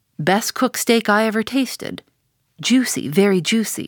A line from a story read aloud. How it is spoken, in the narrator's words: Faintly smacking his withered lips over it for a moment, the old man muttered